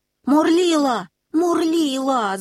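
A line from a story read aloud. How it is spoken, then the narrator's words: Group shouting. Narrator (Russian): закричали они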